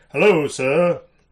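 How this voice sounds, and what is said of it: Deepened alien character voice. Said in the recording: “I might just use my regular voice and then deepen it”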